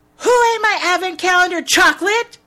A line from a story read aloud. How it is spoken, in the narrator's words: She yells